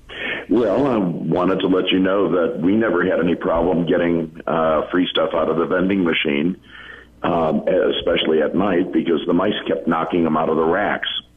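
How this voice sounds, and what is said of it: Hoarse voice. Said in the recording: “It might be just my voice. I'm really hoarse tonight.”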